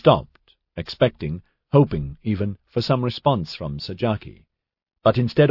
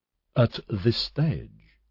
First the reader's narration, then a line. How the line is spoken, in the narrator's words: Sajaki spoke so softly, she largely read his lips